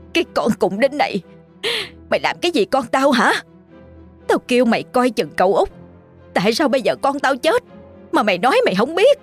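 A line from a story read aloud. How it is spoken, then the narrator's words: Hiss through teeth. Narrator (Vietnamese): Bà, giọng rít lên qua kẽ răng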